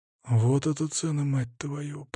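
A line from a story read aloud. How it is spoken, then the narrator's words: Bewildered muttering. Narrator (Russian): пробормотал я растерянно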